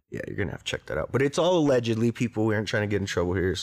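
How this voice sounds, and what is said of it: Strong New Mexican accent. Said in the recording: “I'm from New Mexico. I have a crazy-ass accent.”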